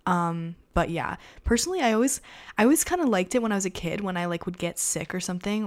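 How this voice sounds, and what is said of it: Raspy hoarse voice. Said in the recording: “raspy voice, currently have a sore throat, and so my voice is very raspy”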